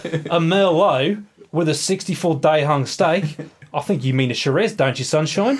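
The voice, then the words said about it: Put-on Australian accent. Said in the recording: “in an Australian accent”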